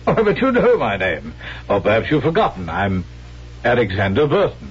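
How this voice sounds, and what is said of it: Stage English accent. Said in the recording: “you're not an Englishman. Oh, your accent sounds authentic. But it's a stage accent, and not the genuine article.”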